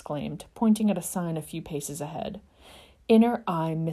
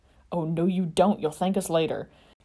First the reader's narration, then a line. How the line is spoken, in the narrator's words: grunted James, both of them panting